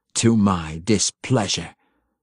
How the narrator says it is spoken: the Bayenry daughter snarled

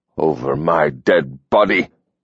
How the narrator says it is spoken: he snarled

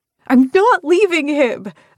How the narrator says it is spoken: I yell

